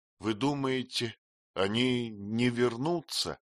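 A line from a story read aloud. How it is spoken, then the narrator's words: Stammering. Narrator (Russian): запинаясь, проговорила она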